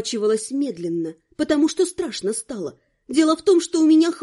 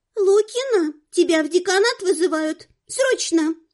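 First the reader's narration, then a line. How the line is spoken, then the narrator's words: Squeaky voice. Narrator (Russian): пропищала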